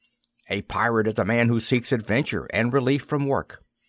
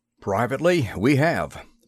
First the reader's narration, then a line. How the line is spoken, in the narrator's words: McLaurin said in a slightly worried tone